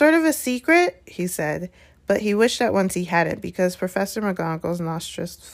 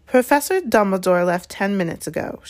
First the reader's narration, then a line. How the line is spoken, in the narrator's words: she said coldly